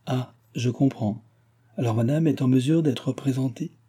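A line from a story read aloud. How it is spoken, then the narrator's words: Timid, countess. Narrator (French): fit timidement la comtesse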